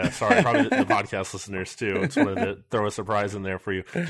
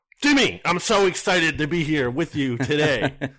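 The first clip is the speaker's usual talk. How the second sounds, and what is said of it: Loud imitation of another person's voice. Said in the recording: “my little Nick Sirianni impression ... Blasted out my eardrums, too.”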